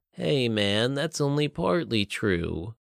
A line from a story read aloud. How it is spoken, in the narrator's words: Gruff whined